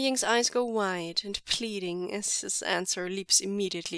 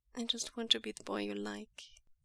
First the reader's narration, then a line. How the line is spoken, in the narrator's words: Wei Ying whispers